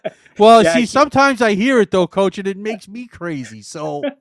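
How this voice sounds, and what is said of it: New York accent. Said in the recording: “I love that New York accent.”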